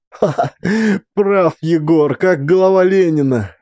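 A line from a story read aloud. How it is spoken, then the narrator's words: Laughing. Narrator (Russian): рассмеялся Максим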